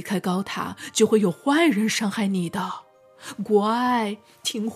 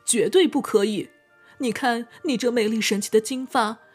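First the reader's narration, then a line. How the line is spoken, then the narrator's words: Desperate pleading. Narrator (Chinese): 长发公主苦苦向女巫哀求道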